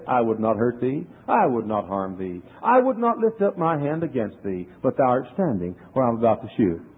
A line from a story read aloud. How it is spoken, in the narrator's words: very courteously and kindly, you know, as the Quaker said